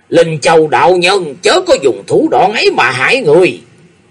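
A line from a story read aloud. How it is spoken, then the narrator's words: Deafening scream. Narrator (Vietnamese): Tây Châu Độc Bá thét lên một tiếng kinh trời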